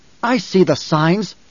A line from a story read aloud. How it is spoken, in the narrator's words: Jessica snapped